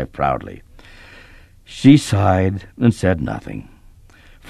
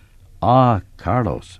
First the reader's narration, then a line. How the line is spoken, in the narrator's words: replied